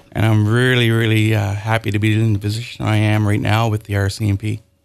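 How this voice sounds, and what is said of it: Newfoundland accent. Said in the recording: “my accent. And as I'm nervous, you can certainly hear it come out ... from Newfoundland”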